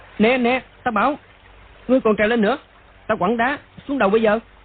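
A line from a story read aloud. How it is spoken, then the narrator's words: Frightened loud shout. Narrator (Vietnamese): Đoàn Dự sợ quá, quát to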